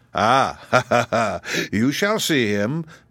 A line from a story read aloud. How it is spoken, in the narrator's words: the man said with a sneering laugh